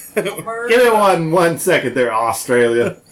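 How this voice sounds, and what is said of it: Bad put-on Australian accent. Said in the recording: “That was the worst Australian accent ever ... It sounds like you were trying to put a little Aussie on there, and it didn't work so well.”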